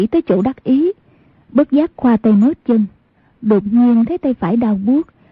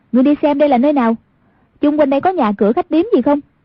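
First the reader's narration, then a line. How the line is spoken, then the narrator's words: Raised voice. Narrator (Vietnamese): Cao giọng nói với Âu Dương Khắc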